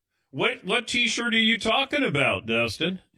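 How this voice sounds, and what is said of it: Put-on Southern American accent. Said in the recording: “I don't know why I did a Southern accent there.”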